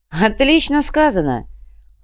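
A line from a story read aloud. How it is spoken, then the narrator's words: Cheerful laughter. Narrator (Russian): Луминар весело рассмеялся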